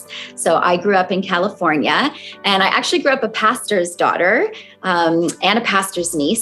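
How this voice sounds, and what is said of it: American accent. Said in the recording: “as you can tell from my accent, I'm originally from the US”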